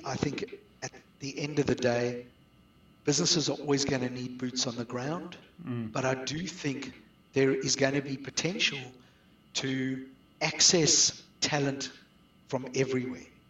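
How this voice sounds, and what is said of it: South African accent. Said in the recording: “you can detect I've got a South African accent.”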